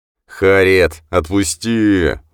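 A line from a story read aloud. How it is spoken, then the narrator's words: Father howling. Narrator (Russian): взвыл отец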